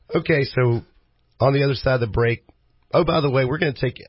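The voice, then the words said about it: Strained, sick-sounding voice. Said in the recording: “because I'm sick and I'm trying to talk as least as I can ... You can hear how bad my voice is struggling.”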